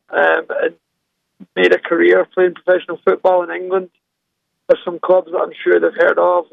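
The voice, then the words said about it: Scottish accent. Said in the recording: “I'm sure people can tell from my accent, I'm from Scotland”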